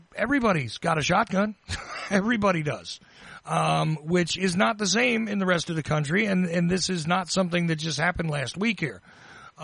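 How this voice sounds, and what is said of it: Georgia Southern US accent. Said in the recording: “I know you can tell from my accent, right? I'm in Georgia”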